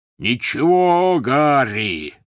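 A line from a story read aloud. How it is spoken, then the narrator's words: Roar. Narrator (Russian): взревел Хагрид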